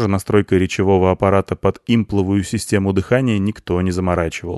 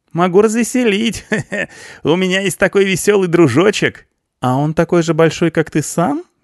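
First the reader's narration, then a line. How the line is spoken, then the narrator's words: Giggling, feigned embarrassment, girl. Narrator (Russian): хихикает, изображая смущение девушка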